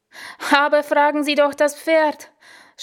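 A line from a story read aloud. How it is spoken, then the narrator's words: Shouted back panting. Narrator (German): schrie ich keuchend zurück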